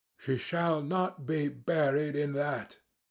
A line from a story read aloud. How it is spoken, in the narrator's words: he cried with a fierce snarl